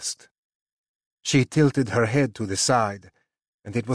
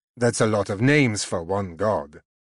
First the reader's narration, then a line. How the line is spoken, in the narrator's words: I said dryly